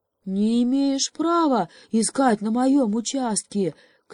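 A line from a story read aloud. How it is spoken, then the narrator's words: Pig shouting. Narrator (Russian): крикнула свинья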